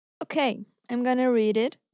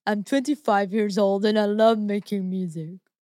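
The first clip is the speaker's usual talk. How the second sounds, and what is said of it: Imitates another person's voice. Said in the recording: “you're going to do his voice? ... I'm going to do his voice.”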